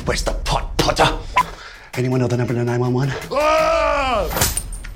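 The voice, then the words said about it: Imitates Draco Malfoy's voice. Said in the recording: “my impersonation of Draco Malfoy”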